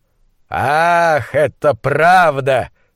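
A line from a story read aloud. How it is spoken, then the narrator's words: Contemptuous drawl. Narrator (Russian): презрительно протянул Кернс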